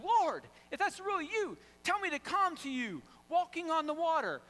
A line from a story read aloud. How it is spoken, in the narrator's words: called out, says